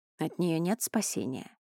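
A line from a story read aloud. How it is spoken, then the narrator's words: Quiet question. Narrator (Russian): тихо спросил сын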